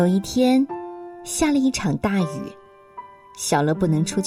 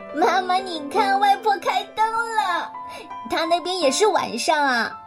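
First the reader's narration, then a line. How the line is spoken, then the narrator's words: Smiling child. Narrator (Chinese): 小乐就笑眯眯的说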